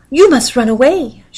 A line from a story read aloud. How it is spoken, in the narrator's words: she cried